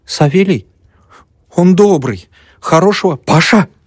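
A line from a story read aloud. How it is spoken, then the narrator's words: Old woman's warning bark. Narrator (Russian): предостерегающе рявкнула старуха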